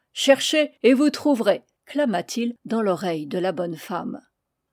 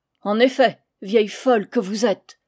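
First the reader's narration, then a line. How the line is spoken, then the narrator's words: Grumbling familiar voice. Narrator (French): grommela quelqu'un dont la voix ne lui était que trop connue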